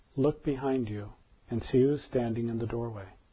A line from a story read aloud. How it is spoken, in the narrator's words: softly said